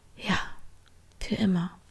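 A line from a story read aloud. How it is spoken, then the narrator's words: Murmuring. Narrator (German): murmelte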